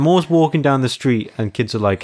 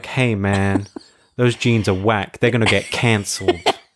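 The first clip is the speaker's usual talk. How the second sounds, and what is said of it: Slight put-on American accent. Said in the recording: “Why did you go like? ... I don't know what accent. You were like a little bit American.”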